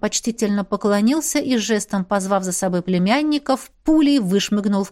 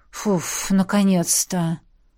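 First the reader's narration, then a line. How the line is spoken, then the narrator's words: Tired exhale. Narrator (Russian): устало выдохнул Эдмунд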